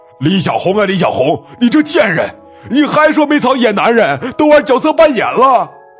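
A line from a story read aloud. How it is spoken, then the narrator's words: Frantic heartrending roar. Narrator (Chinese): 那胖男人几乎疯了，撕心裂肺的大吼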